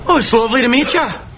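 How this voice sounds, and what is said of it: Irish accent. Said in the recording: “What the hell kind of accent is that? ... I'm from Ireland.”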